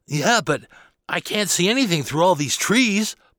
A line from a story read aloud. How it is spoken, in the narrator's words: Bobby exclaimed